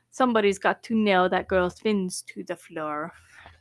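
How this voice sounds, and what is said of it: Put-on cartoon character accent. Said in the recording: “it's not my best Sebastian accent”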